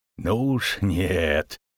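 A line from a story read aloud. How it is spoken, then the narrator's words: Through gritted teeth. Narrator (Russian): процедил Богольд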